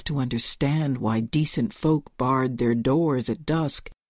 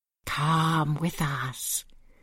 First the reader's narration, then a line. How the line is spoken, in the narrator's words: whispered in a single shared voice, susurrating like wind over a frozen lake